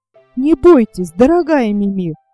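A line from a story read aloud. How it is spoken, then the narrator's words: Exclaimed. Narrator (Russian): воскликнул Якоб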